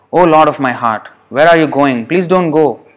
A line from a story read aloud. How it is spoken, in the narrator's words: she cried out